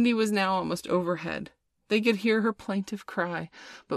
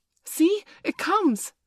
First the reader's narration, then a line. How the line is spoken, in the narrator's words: cried Curly